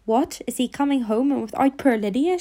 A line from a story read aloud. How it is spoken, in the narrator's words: she cried